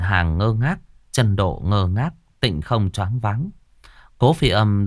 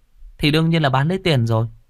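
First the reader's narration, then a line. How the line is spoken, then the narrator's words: Smiling. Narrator (Vietnamese): Cố Phi Âm mỉm cười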